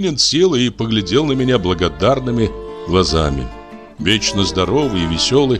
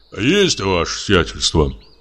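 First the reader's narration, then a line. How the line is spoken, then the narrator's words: Deep bass. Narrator (Russian): пробасил одноглазый Кузьма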